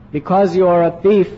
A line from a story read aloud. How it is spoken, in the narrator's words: said